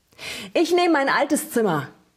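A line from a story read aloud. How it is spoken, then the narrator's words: Bellow. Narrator (German): brüllte er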